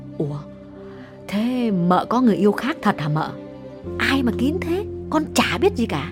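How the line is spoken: Lowered voice. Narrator (Vietnamese): Con Dung hạ giọng bảo

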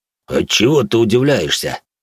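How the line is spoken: Giant's deep bass. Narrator (Russian): пробасил одноногий гигант

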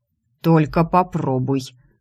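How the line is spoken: Menacing. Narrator (Russian): грозно произнес Кронин

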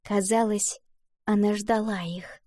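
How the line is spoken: Smiling whisper. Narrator (Russian): прошептала Валентина, улыбаясь

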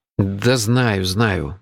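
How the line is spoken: Grumbling mutter. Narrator (Russian): буркнул я

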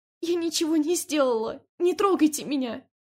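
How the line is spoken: Muffled sobbing. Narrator (Russian): Она уткнулась в колени и глухо разрыдалась

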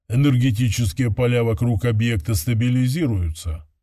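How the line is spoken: Dry AI voice. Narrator (Russian): сухо добавил второй ИИ

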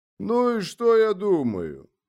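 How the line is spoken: Gloomy question. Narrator (Russian): мрачно спросил Ворошила

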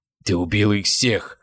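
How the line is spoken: Growl. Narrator (Russian): прорычал он

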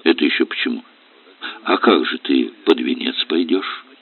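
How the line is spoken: Calm question. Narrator (Russian): Спокойно спросил Олег

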